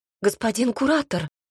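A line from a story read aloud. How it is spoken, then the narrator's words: Frightened squeak. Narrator (Russian): пискнула испуганно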